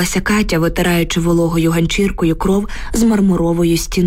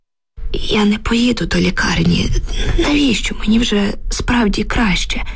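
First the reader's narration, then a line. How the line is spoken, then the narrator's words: Weak moan. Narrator (Ukrainian): стогнала Люба слабким голосом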